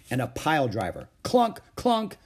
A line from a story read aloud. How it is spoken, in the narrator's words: shouted Ramona